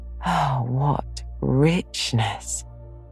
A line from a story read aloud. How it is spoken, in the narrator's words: sighed, with an air of intense satisfaction